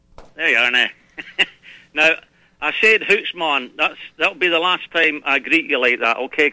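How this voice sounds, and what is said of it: Brogue accent. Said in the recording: “how I can tell it's you? Because of that brogue.”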